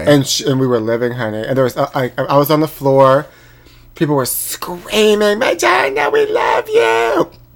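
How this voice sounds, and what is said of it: Hoarse voice. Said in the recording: “that's why my voice is hoarse”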